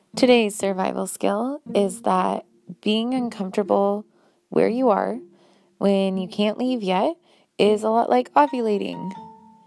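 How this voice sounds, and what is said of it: Froggy, hoarse voice. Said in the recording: “I have a slight cold, and so today I was really tired, and so that's why my voice sounds extra froggy.”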